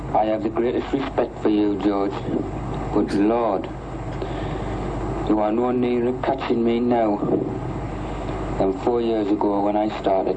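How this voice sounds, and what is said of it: Strong Sunderland accent. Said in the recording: “is that like a very Sunderland accent? ... Oh, yeah. ... I'd be like, "That's Jordy."”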